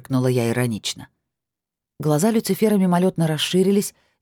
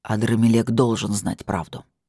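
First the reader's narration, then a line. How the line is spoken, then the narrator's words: Angry, after silence. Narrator (Russian): произнес он сердито через минуту молчания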